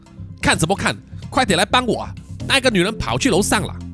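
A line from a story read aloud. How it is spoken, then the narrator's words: Angry cursing. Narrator (Chinese): 吉米愤怒的破口大骂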